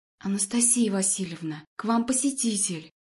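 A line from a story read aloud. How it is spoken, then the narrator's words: Quiet nurse. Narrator (Russian): Медсестра говорила тихо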